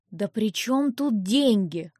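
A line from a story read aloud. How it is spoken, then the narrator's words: Irritated. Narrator (Russian): раздраженно он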